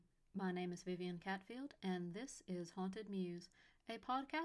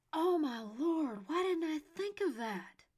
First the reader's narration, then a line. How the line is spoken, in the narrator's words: Yates exclaimed